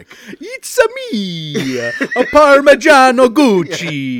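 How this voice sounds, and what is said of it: Exaggerated Italian accent. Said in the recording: “start with a bad accent ... that's not offensive because ... actually Italian”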